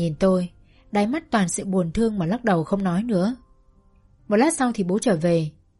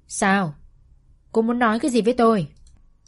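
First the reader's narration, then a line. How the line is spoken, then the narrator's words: Cold question. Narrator (Vietnamese): Bố lạnh lùng hỏi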